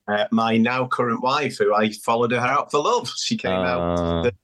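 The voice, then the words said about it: Manchester English accent. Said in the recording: “he doesn't sound Australian ... I'm from Manchester in the UK ... hence the accent”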